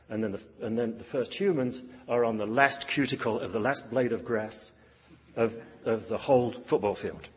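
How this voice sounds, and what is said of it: Non-American, likely British accent. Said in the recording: “you can tell by my accent that American football is not my game”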